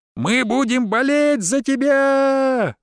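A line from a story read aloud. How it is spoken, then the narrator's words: Loud yell like sports fan. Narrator (Russian): заорал друг, словно был на футбольном матче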